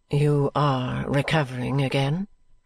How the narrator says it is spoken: she asked kindly

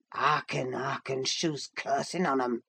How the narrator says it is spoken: muttered Joseph

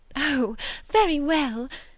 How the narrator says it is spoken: exclaimed Miss Bates

